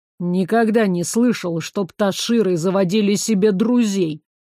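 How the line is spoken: Skeptical snort. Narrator (Russian): хмыкнул туман

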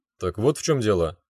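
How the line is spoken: Chuckling. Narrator (Russian): хохотнул я

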